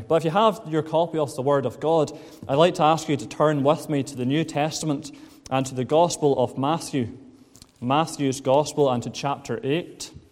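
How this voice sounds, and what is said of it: Glaswegian Scottish accent. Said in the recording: “as you can tell, I'm not a Lisburn native, but I have spent most of my life in Glasgow... So that's where this accent has come from.”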